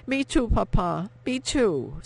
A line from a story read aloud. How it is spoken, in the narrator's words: Sophie cried